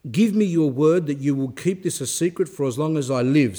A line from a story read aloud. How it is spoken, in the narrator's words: said the saint